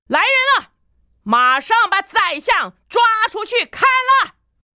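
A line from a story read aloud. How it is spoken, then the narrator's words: Furious shout. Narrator (Chinese): 国王勃然大怒，大喊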